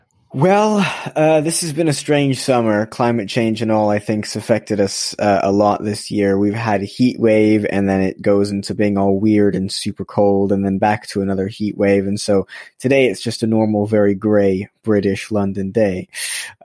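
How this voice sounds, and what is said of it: American accent. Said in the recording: “you can hear my accent. It's a little bit weird. I was born in Los Angeles”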